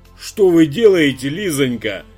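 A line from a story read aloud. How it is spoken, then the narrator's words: Exclaimed. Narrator (Russian): воскликнул директор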